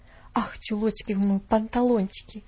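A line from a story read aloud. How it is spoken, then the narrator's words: Muttering under breath. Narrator (Russian): пробормотала Нэнси себе под нос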